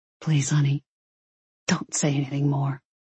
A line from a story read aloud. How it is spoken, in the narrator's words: whispered